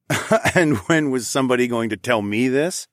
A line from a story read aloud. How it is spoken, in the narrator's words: I chuckled